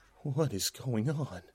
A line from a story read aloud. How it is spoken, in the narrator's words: I muttered in shock